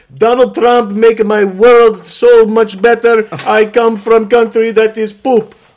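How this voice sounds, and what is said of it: Imitated foreign immigrant accent. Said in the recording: “You've got an accent. Go. ... I like the accent. ... It's called imitating an accent.”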